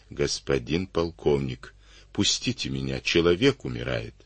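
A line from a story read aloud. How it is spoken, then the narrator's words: Very quiet, cautious plea. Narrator (Russian): Отец Герасим, понимая, что с пьяным лучше не связываться, очень тихо просил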